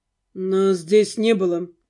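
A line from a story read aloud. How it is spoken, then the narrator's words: Calm. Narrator (Russian): спокойно сказал тот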